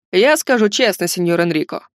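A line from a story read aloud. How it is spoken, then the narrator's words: Deep bass voice. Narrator (Russian): пробасил он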